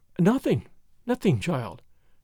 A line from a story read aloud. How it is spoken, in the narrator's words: she murmured, as if in a dream